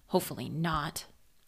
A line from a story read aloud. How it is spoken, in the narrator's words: Harry grumbled